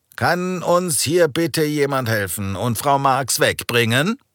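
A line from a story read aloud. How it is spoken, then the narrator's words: Calling to colleagues. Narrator (German): rief seinen Kollegen zu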